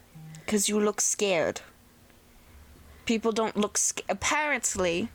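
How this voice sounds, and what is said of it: Put-on accent. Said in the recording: “I don't know why I just said an accent... Sorry doing an accent”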